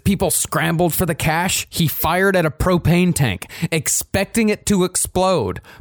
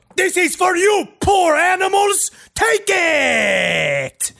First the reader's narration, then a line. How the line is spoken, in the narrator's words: screaming